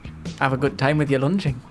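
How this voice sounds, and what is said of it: Put-on Geordie accent. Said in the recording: “a Geordie accent.”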